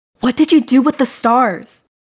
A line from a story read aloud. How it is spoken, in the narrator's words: She yelled